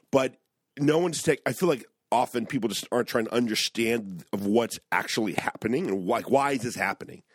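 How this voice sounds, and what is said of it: Voice sounds sick and rough. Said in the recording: “I'm so sorry about my voice. I'm getting over being really, really sick.”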